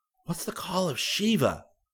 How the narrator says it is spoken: Rick whispered to Chada

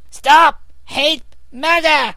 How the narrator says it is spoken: shrieked Rivette, kicking her feet in great agitation

